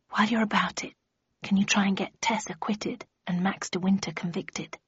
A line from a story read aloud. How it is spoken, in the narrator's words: He put his mouth close to my ear and whispered